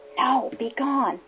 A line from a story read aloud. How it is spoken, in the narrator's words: the prompter whispered from the wings